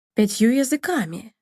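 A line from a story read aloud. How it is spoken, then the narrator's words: Count exclaiming. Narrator (Russian): воскликнул граф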